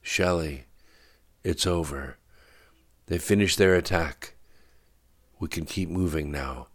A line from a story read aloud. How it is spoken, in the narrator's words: said Orphan warmly through the leather vest over her head